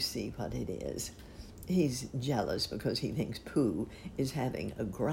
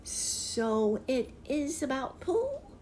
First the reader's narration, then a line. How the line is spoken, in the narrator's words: squeaked